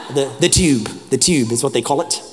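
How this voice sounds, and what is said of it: Put-on London accent, sounding Australian. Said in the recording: “This is my London accent. It's starting to sound Australian.”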